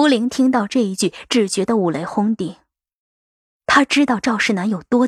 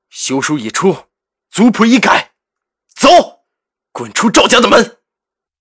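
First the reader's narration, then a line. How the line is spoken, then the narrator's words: Low growl, gritted teeth. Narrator (Chinese): 赵世南一咬牙，对杜恒低声吼着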